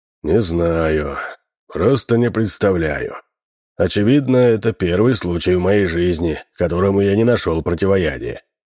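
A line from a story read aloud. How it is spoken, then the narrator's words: Sighing. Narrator (Russian): вздохнул Минц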